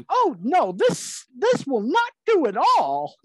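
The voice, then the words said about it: Cartoon character voice impression. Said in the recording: “my horrible Binky impersonation”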